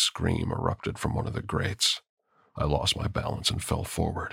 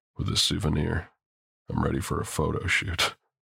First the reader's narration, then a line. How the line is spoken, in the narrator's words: I chuckled